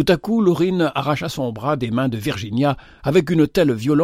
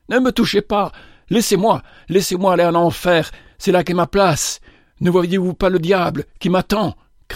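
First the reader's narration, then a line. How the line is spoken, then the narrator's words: Hoarse shout. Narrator (French): cria-t-elle d'une voix rauque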